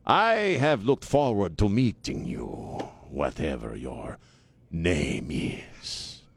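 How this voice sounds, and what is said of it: Cheap put-on Hispanic accent. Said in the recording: “pull out the cheap Hispanic accent that I do ... I should do Khan”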